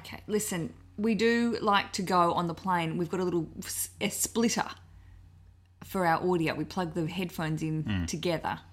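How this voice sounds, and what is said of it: Australian accent. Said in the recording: “You might hear our accents. We're from Australia”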